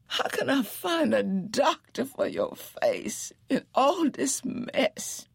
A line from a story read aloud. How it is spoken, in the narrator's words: Janie wailed